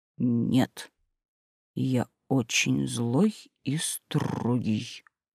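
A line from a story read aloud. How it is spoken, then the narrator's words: Growled. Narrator (Russian): зарычал Василий Иванович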